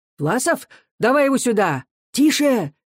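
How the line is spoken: Several voices shouting. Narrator (Russian): кричали сразу в нескольких местах

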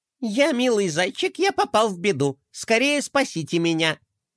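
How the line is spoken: Child's squeaky put-on voice. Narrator (Russian): сказал мальчик писклявым голосом за генерала де Кроля

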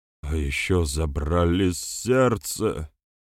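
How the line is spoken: Whistling exhale. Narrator (Russian): со свистом выдохнул Пурка

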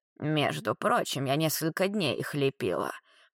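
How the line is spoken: Creaky voice. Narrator (Russian): проскрипела Марла

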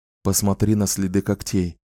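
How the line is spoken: Whispering. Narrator (Russian): шепнул Ричард

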